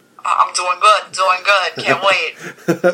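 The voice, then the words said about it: Put-on Brooklyn accent. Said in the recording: “We're talking like Brooklyn ... you've gone from like British to Brooklyn style”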